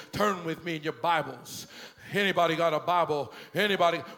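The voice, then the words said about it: Deep, low preacher voice. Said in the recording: “it's real deep and it's real low and it's real, I need bass in there ... it's deep. It's a little bit Martin Luther King. It's a little bit of, it's a good deep preacher voice”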